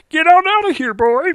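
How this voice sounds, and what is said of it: Marvin the Martian cartoon voice. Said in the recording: “Was it Marvin the Martian?... you love that impression”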